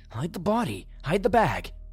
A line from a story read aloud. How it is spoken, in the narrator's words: say frantically